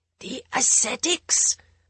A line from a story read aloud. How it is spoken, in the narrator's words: the Balmer Rajguru whispered